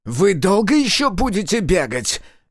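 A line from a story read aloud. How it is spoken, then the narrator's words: Barked, losing patience. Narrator (Russian): Не выдержав, рявкнул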